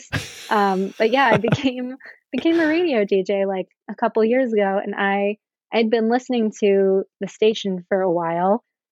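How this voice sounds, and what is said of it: Smooth radio announcer voice. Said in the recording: “I'm now using my radio voice.”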